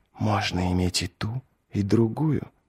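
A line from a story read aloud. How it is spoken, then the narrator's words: Whisper. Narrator (Russian): прошептала она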